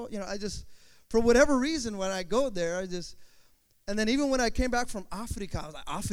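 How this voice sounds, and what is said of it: Usual voice. Nothing is said of it.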